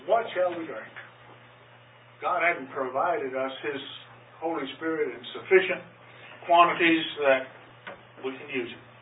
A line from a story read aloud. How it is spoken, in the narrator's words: People murmured against Moses, saying